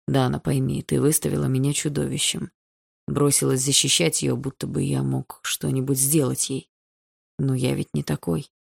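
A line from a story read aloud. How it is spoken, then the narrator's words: Quiet. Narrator (Russian): Андрей тихо говорил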